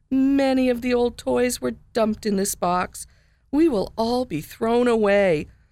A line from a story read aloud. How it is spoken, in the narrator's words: Willie sighed